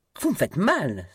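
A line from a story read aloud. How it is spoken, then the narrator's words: Exclaiming woman. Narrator (French): s'écria-t-elle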